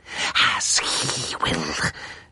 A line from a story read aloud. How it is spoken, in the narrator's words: she hissed